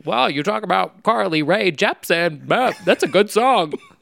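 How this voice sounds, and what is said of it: Imitates another person's voice. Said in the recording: “that was a really bad impression. ... No, I think that was spot like, on.”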